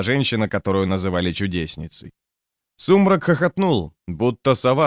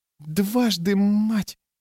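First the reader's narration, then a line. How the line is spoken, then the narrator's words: Soundless breath. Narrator (Russian): Беззвучно выдохнула Рикки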